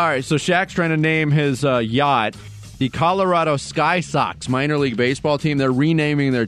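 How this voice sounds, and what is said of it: Usual voice. Nothing is said of it.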